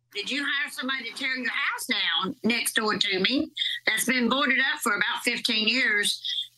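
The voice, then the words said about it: Distinctive regional accent. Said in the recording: “She's got a unique accent.”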